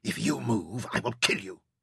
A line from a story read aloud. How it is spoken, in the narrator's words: he whispered ferociously in Arabic